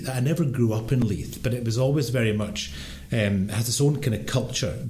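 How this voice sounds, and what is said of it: Strong Scottish accent. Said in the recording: “I grew up in Edinburgh, obviously, in Scotland. You can maybe tell by my rather accent, my strong accent.”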